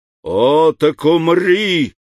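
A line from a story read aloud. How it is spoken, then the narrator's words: Furious shout. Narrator (Russian): закричал Магуа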